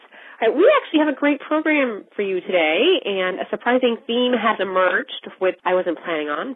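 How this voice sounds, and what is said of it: Slightly congested, off voice. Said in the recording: “I have a bit of a cold, so my voice is a little off ... my sniffles”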